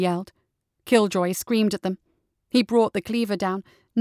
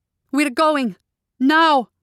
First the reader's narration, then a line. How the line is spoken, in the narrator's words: yelled